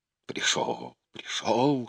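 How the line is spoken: Trembling whisper. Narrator (Russian): шептал он, прижимая дрожащие руки к дрожащей груди

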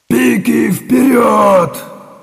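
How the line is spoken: Yelling command. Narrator (Russian): заорал Чистоплюй

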